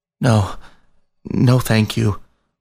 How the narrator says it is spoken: was all Biscuit could stammer

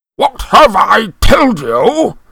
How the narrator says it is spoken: thundered his uncle

